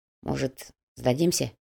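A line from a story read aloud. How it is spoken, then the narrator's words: Quiet suggestion. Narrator (Russian): тихо предложил Шамиль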